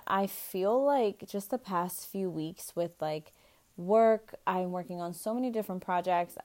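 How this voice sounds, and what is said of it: Tired-sounding voice. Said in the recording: “I sound a little tired”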